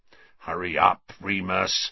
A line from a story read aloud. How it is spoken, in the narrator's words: snarled Black, who was still watching Scabbers with a horrible sort of hunger in his face